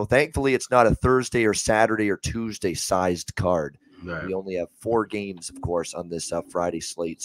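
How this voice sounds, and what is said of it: Hoarse, strained, worn-out voice. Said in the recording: “he sounded like shit. And boy, do I sound like it right now as well, battling through some throat issues today. The voice is just shot”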